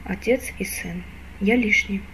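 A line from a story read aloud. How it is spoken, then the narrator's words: Calm musing. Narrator (Russian): спокойно рассуждал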